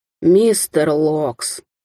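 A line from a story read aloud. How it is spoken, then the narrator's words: Lazy drawl. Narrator (Russian): лениво протянул Даниэль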